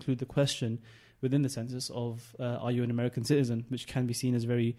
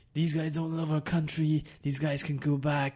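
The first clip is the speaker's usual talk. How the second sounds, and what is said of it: Imitates another person's voice. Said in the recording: “That's a very nice impression.”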